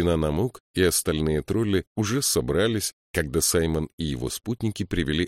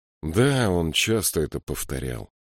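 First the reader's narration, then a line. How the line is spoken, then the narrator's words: Sad. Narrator (Russian): печально сказал Саймон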